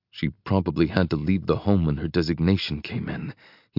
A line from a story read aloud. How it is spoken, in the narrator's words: he mutters